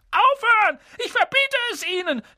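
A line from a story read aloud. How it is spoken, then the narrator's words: Panicked scream. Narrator (German): schrie Onkel Vernon in Panik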